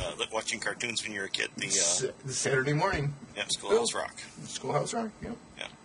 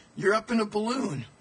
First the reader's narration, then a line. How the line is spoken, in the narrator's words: the jogger yelled back